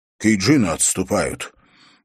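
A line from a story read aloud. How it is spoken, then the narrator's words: Rough, cursing. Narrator (Russian): Нидзак грубо обругал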